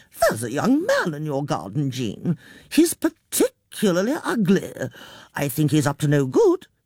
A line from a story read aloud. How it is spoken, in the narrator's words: Now back in control, she said cheerfully